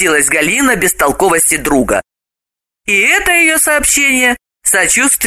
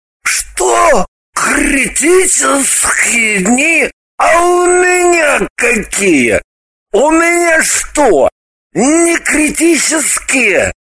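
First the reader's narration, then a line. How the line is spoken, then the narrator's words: Enraged offended yelling. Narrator (Russian): Мгновенно входя в раж, завопил оскорбленный Граблин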